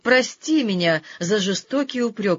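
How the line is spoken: Exclaimed. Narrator (Russian): воскликнул он

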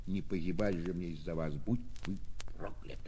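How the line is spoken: Final whisper. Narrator (Russian): прошептав напоследок

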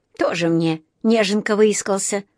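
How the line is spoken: Snorted. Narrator (Russian): фыркнул другой

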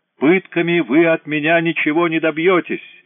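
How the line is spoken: Screaming. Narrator (Russian): вопил Эврар

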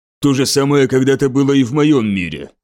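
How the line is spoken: Rough, rude. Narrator (Russian): грубо ответил кадианский полковник

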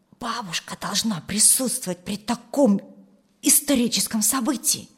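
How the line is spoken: Whispered. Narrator (Russian): шепнула Юлия брату

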